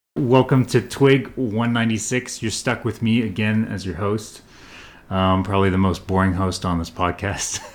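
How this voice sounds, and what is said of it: Canadian accent. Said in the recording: “my my lull Canadian uh, accent”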